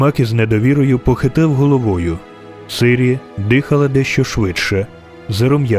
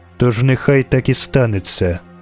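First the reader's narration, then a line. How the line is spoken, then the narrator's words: Curt and cold. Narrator (Ukrainian): сказала Ейтне, коротко і холодно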